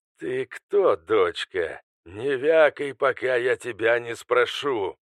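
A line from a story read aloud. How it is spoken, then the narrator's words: Menacing. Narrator (Russian): грозно ответил Алистер Дарк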